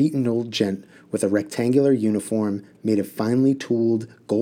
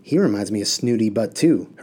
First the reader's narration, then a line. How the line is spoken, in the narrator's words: Harun whispered to If